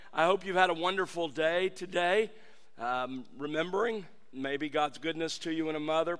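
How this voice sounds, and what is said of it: Weak, strained voice. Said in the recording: “My voice is a little weak. I'm not used to not having voice.”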